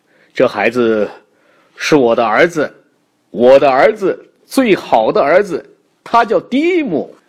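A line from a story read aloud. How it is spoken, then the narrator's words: Loud. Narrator (Chinese): 爸爸大声的继续说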